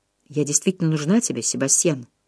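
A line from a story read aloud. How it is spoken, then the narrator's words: Quiet question. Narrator (Russian): тихо спросила Джо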